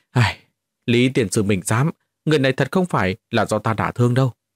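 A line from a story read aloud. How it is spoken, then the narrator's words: Aggrieved hurried sigh. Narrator (Vietnamese): Lâm Mãnh cảm thấy oan ức ghê gớm, vội vàng thở dài nói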